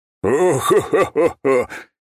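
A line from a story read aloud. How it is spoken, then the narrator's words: Merry laughter. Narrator (Russian): весело рассмеялся Бернхард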